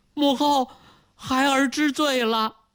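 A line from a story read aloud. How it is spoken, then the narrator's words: Hurried tearful plea. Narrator (Chinese): 朱翊钧如遭雷击，他连忙对着母亲哭诉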